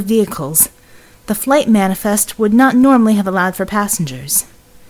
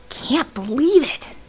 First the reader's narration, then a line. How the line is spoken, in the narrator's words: he whispered, again